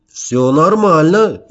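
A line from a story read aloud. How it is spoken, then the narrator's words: Cheerful reply. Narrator (Russian): весело отвечал я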